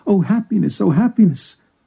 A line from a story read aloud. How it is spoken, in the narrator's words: exclaimed